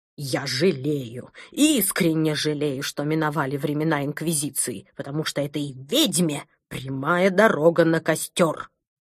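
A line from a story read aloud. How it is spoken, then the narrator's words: Angry hiss, rising volume. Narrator (Russian): Злобно прошипел доктор Пилюлькин, повышая голос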